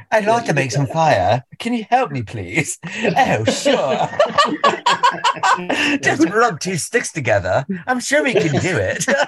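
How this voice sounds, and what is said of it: Poor put-on British accent. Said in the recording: “I just massacred the English dialect for y'all ... You've done a better job than Dick Van Dyke ... my British accent does sound more like Dick Van Dyke if I let it”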